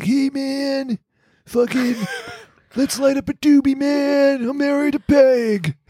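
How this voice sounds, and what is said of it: Stoner character voice. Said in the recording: “is like my stoner voice.”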